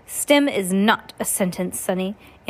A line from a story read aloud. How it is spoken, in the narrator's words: Aunt Josephine said sternly